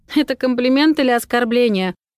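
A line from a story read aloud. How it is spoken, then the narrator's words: Suppressing laughter. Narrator (Russian): едва сдерживаюсь, чтобы не рассмеяться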